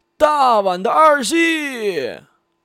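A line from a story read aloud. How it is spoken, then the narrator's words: Tentative call. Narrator (Chinese): 他…试探性的喊一嗓子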